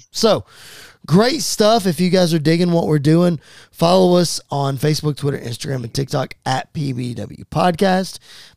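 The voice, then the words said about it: Strained, fading voice. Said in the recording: “before I officially lose my voice, because it is going ... very, very quickly”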